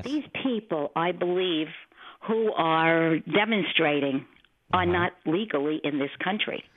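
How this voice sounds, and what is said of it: New York accent. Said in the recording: “I hear that New York accent.”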